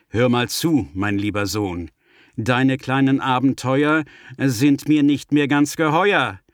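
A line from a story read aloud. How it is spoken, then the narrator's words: Stern father's tone. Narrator (German): Paps, der Osterhasenvater, hat genug von dem Theater, und er sagt mit ernstem Ton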